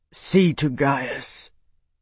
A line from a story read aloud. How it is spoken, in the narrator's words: Bernard growled